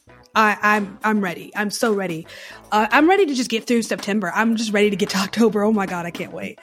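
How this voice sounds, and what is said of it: Excited, eager voice. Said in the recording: “Can you hear it in my voice? The excitement.”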